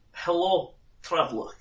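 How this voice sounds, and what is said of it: Thick, broken foreign accent. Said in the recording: “in a very thick and broken accent”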